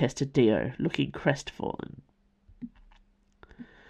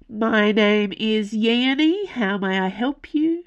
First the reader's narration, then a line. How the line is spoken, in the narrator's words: drawled